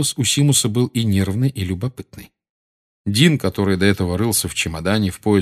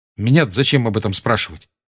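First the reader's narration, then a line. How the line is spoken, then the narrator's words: Sharp. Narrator (Russian): резко ответил Гарри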